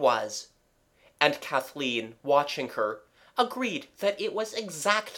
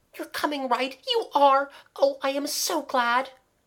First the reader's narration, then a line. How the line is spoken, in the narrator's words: cried Kathleen